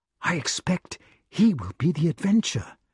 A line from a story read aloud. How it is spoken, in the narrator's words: whispered Wart